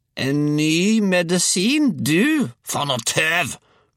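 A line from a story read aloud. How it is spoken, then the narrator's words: Roared. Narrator (Norwegian): brølte hun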